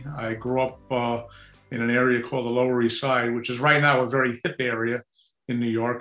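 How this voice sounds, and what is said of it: New York City accent. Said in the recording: “as you may be able to tell by my accent, I'm a product of New York City”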